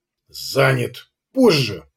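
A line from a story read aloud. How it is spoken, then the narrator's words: Growl into phone. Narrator (Russian): прорычал Хамзи в трубку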